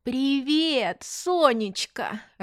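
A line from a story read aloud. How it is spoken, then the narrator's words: Joyful shout into phone. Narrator (Russian): радостно закричала она в трубку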